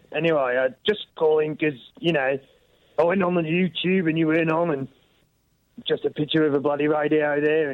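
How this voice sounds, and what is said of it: Hoarse voice from sore throat. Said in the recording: “you don't have an Australian accent ... I've got a bad throat, mate.”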